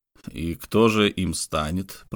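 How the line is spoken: Through gritted teeth. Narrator (Russian): процедил сквозь зубы Квен

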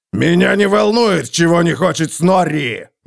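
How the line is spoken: Roar. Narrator (Russian): взревел Готрек

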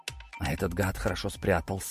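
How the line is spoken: Gruff mutter. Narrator (Russian): буркнул я

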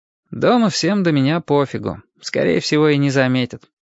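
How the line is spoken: Bored voice. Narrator (Russian): скучным голосом сказал Костя

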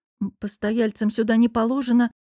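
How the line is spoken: Tight-lipped grumbling. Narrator (Russian): поджав губы, проворчала я

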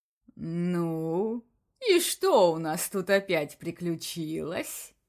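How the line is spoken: Soft purring. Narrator (Russian): Мягко промурлыкал Бакс

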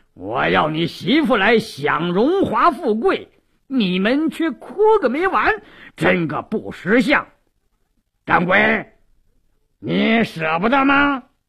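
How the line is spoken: Sneering. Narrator (Chinese): 鲁斋郎冷笑一声

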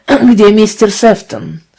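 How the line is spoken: Deep hoarse voice. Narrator (Russian): спросил человек глубоким хриплым голосом

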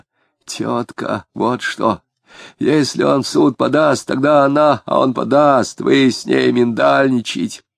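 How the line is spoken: Sullen, wheezing confession. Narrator (Russian): Угрюмо сознался Безбедов хрипя

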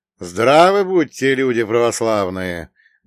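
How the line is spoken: Loud. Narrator (Russian): громко произнес я

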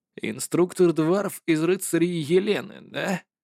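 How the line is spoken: Muttered to himself. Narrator (Russian): пробормотал он про себя

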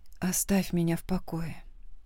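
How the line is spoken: Weary reply. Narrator (Russian): ответила устало

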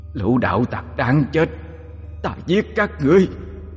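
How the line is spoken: Angry howl. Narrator (Vietnamese): Nó giận dữ gào lên

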